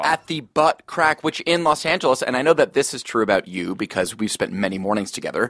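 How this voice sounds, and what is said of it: Slightly scratchy voice. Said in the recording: “my voice is a bit scratchy”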